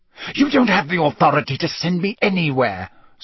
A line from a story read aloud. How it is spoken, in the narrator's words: Snape hissed